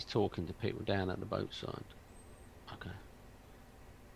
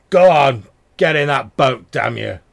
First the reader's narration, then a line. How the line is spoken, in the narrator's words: You hear him shouting